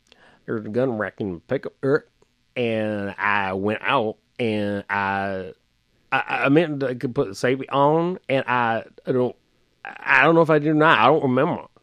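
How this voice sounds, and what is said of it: Guttural Mississippi Southern accent. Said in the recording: “the Southern accent I've done for you ... a very specific Southern accent ... comes from an area in Mississippi, and it's a very guttural”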